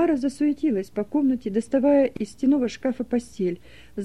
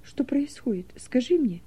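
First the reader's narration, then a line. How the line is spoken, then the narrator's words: Whispered plea. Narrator (Russian): шепотом попросила Тамара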